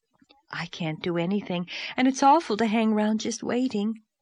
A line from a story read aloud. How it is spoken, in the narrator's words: sighed Charlotta